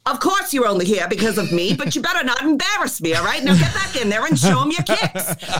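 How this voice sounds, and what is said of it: Transatlantic accent, grandmother voice. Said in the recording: “my grandmother would have said, in her transatlantic accent”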